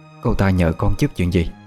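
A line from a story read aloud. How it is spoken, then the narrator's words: Worried question. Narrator (Vietnamese): bà hỏi lại với giọng điệu đầy lo lắng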